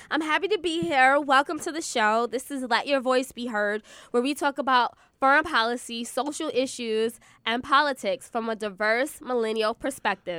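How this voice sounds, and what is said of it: Sick, congested, over-projecting voice. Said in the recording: “I'm a little under the weather. That's why my voice sounds like this ... I have a cold ... That's the sick accent. That's like the over-projecting because you don't feel well.”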